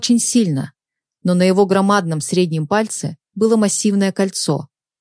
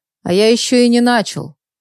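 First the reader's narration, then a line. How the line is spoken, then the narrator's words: Smirking snort. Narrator (Russian): хмыкнул бандит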